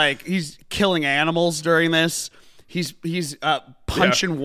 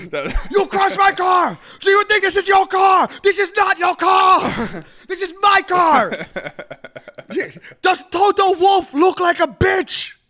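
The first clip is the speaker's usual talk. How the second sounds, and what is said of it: Angry shouting demon voice. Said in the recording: “He gets red in the face. He gets that, like, demon voice coming out of him.”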